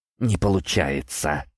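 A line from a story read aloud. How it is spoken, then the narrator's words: Quiet. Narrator (Russian): тихо произнес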